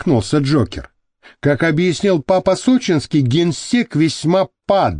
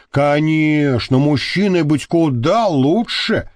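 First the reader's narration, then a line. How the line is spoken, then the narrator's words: Displeased grumble. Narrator (Russian): недовольно проворчала Маша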